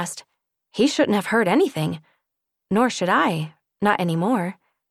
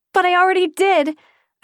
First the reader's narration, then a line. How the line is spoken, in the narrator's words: I cried